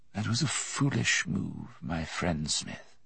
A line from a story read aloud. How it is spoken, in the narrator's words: he said softly